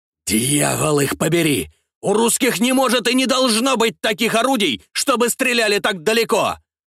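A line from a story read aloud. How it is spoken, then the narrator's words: Shouting admiral. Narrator (Russian): прокричал адмирал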